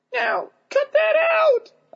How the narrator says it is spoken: I squeaked at him

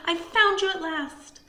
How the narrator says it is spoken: cried

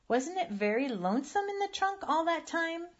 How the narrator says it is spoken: Susan asked in her strange little cracked voice

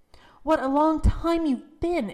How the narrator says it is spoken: exclaimed his mother, who was watching anxiously for him at the gate

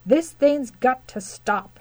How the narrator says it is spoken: he thundered

